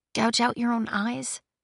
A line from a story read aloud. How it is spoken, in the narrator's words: She said softly